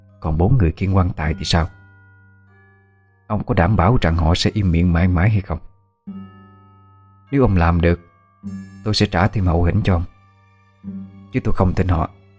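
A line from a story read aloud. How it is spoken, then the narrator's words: Whispered. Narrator (Vietnamese): ghé sát miệng mà thì thầm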